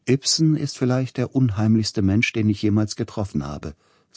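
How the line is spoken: Plain. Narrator (German): sagte Grieg

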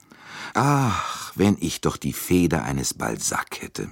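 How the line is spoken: Sighing. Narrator (German): sagte er seufzend

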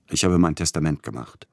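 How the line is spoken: Plain answer. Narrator (German): antwortete Peter Iljitsch

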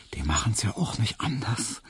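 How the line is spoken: Smiling whisper. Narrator (German): flüsterte ihm Hedwig lächelnd zu

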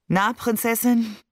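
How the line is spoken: Tired, smiling. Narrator (German): fragte er mich müde lächelnd

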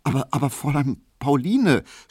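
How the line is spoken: Guilty stammering. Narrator (German): stotterte Emil Kubinke, und er hatte ein sehr böses Gewissen

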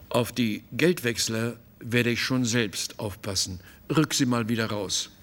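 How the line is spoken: Slow, calm, unemotional. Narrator (German): Es war keine Enttäuschung und keine Trauer und schon gar nicht Empörung in seiner Stimme, als er langsam sagte

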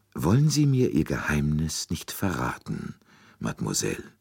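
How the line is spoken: Very soft, almost imploring. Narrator (German): Poirots Stimme klang sehr sanft, fast beschwörend

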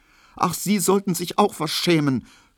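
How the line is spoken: Sobbing. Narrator (German): schluchzte sie

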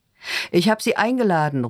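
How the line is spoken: Calling out. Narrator (German): ruft Joachim, der die Treppe herunterkommt

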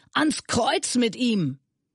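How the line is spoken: Crowd screaming louder. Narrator (German): schrien noch lauter

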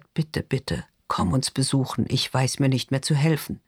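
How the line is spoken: Whisper. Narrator (German): flüstert

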